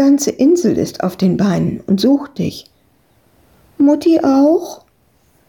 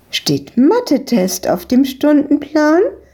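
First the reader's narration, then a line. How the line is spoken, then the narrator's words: Woman calling out. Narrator (German): rief die Besitzerin von der Eisdiele ihnen zu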